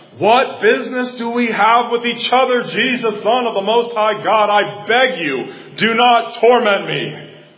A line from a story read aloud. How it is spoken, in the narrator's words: he cried out said in a loud voice